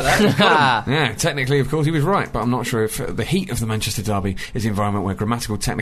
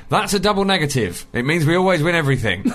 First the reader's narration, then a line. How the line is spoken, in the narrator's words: My dad decided to respond by shouting